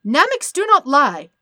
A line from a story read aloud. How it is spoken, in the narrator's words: Dende all but shouted